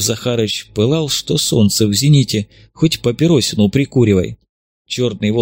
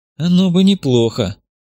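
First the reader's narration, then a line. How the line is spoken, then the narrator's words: Sympathetic sigh. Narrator (Russian): сочувственно вздохнул Иван Кузьмич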